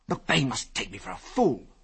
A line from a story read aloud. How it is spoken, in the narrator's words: he snarled savagely